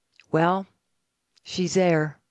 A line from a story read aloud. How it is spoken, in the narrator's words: The little old man calmly said